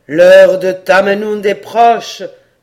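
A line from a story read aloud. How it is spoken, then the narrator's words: Sage exclaiming. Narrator (French): s'écria le sage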